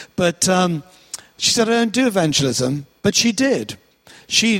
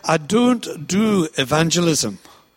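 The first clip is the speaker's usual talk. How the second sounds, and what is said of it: Attempted Glaswegian Scottish accent. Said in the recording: “my old Scottish friend ... I've got the accent wrong. She was from deepest Glasgow”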